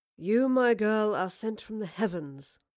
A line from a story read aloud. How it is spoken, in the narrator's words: Marlowe purred as he saw the food